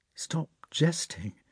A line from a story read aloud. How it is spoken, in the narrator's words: said Prince Andrei sadly and seriously